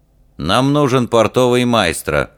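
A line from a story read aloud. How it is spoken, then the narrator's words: Cold statement. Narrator (Russian): холодно сообщил принц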